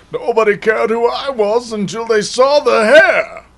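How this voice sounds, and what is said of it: Bane character voice impression. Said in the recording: “My Bane impression? ... No, it does not work for me.”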